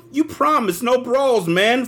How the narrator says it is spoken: Fred whined

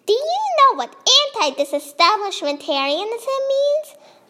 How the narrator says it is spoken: the old lady said in a cranky voice

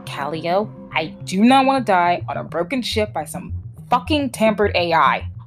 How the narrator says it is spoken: Jay snarled

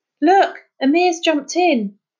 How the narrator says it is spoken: Dougie shouted

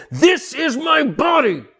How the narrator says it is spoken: He would scream it out

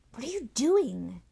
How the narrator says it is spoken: She hissed at him

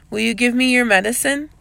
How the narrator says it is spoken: She asked this, but her voice was uncertain

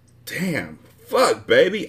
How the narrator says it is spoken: I gasped

